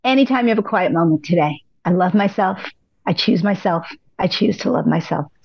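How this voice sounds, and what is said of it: Strained, fading hoarse voice. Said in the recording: “losing my voice”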